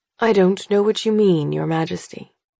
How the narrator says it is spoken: he says, his voice blissfully normal

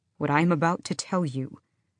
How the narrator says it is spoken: Kaol said

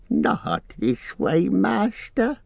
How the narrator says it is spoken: he pleaded

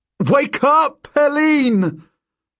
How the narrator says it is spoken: I yell at her

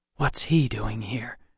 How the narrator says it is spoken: I whispered to Millard

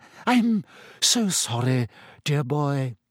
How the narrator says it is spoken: she said dreamily

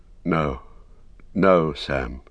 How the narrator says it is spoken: he said sadly

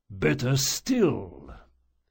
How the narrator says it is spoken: the priest rumbled

